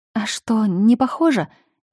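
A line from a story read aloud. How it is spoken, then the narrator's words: Strained, forced words. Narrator (Russian): выдавила я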